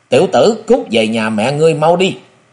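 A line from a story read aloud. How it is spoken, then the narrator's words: Deep-voiced laughing shout. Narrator (Vietnamese): lại còn cười lớn, hắn trầm giọng quát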